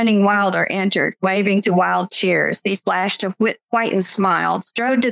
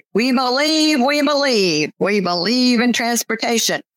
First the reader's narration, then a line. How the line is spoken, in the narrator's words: Men, women, and children in green MACA caps shouted and chanted